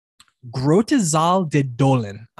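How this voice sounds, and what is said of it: Put-on Dutch pronunciation. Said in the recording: “my best Dutch impersonation”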